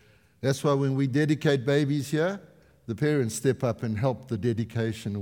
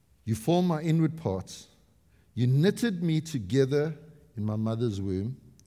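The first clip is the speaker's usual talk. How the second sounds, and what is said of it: Slow, deliberate reading. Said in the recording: “read it slowly”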